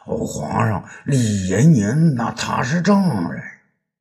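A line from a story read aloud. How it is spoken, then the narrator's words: Mumbling. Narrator (Chinese): 张汤啊，咕咕哝哝的说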